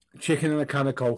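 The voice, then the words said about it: Attempted Scouse accent. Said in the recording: “do a Scouse accent ... practising a Scouse accent”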